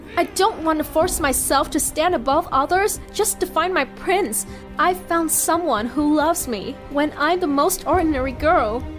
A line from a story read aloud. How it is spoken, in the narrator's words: I firmly told her